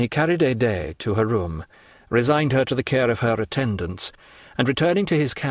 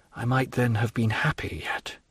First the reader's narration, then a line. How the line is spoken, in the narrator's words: murmured with intense suffering